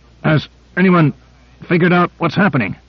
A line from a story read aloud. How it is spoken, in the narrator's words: Grant managed to grunt out